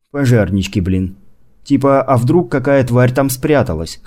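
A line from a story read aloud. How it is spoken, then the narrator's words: Wry snort. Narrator (Russian): хмыкнул доктор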